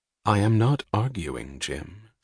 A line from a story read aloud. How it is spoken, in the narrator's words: she said dryly